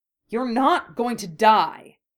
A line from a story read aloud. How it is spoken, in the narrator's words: Harry said angrily